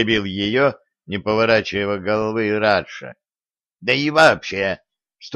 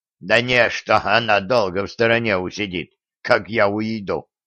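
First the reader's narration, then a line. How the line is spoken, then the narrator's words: Muffled snort. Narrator (Russian): хмыкнул в бороду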